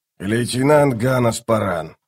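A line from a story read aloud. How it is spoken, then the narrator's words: Grumbling. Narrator (Russian): проворчал капитан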